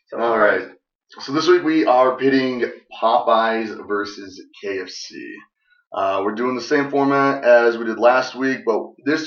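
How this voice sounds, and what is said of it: Voice sounds off, strained. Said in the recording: “my voice sounds off today. This is the first day that I can actually talk.”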